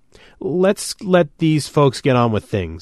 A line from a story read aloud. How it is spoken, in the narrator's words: I said shakily